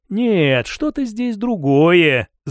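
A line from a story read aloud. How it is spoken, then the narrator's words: Thoughtful prince. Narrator (Russian): задумчиво проговорил князь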